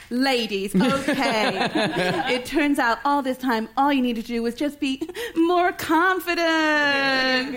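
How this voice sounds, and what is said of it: Put-on American accent. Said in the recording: “I'm going to do an American accent”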